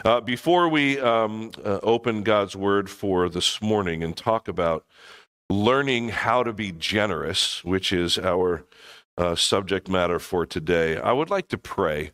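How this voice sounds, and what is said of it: Sounds sick. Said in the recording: “Many of us are not feeling well. You can probably hear it in my voice. ... been sick or getting over it”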